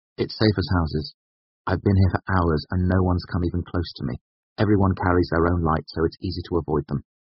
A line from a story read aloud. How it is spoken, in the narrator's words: I said quickly